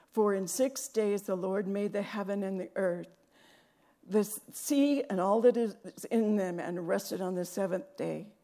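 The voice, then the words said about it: Strained, failing voice. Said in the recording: “My voice is going somewhere.”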